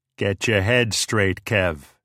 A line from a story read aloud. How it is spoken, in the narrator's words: said gruffly